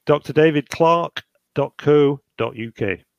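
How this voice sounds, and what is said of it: Slow, deliberate spelling-out speech. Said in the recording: “say it slowly, please.”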